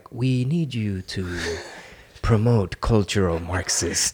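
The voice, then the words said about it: Mysterious spy voice. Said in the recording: “that accent ... It's not an accent. I'm just doing a mysterious spy voice ... my Eric Swalwell impersonation”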